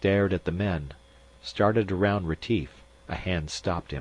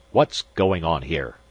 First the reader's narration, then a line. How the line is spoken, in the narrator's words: Magnan barked